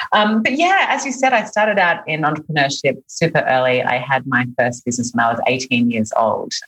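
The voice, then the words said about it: Australian accent. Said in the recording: “you can probably hear from my accent that I'm not from here originally. I'm Australian.”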